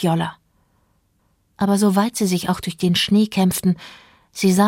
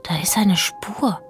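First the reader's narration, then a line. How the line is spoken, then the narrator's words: Whisper. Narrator (German): flüsterte Fjolla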